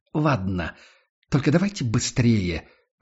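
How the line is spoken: Irritated. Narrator (Russian): раздраженно

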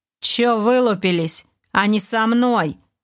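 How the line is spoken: Rather rude. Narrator (Russian): довольно грубо заявил Дэн

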